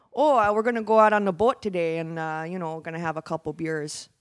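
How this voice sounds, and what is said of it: Exaggerated Wisconsin accent. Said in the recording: “the stereotype that I'm aware of is actually pretty accurate ... that's how everyone talks in Wisconsin”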